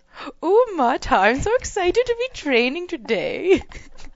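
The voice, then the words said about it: Character voice with an accent. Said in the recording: “he's got an accent”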